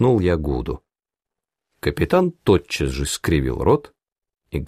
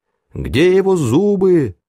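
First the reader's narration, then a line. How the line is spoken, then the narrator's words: Fearful group shouting. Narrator (Russian): в страхе закричали они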